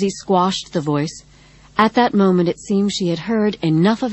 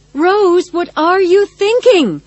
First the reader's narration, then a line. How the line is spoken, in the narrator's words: Practical Sensible screamed